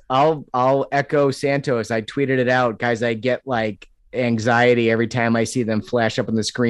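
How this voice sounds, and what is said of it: Usual voice. Nothing is said of it.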